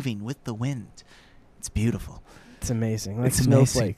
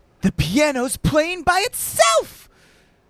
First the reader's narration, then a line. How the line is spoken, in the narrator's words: Joe exclaimed